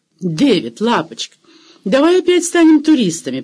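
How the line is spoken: Suggesting. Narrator (Russian): предложила Дженни и тут же воскликнула в восторге

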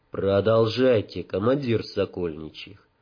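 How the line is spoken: Fairly quiet. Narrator (Russian): довольно тихо сказав

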